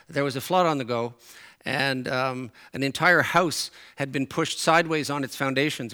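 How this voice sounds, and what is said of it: Newfoundland accent. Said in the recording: “my Newfoundland accent comes out and my Newfoundland expressions come out”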